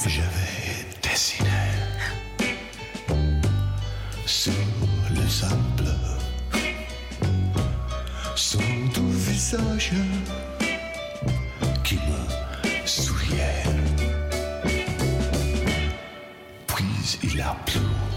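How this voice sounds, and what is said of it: Sings French with British accent. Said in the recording (French): “avec son accent délicieusement british”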